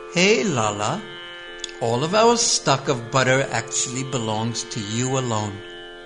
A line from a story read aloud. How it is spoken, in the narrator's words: While tenderly caressing Krishna, she said